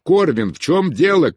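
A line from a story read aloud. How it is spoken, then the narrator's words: Shout. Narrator (Russian): крикнул Бенедикт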